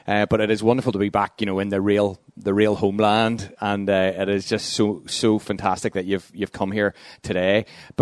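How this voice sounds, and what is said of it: Luton English accent. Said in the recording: “as you can tell from the accent, I'm from Luton”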